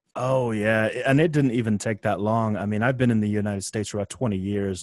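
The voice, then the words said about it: Fading foreign accent, not quite American. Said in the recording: “you're losing your accent. ... you're in that weird place where you don't sound American”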